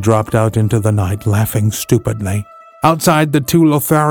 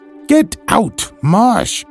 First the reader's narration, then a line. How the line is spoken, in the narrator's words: she cried, shaking nervously